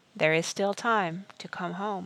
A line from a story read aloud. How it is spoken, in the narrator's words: Merriman said softly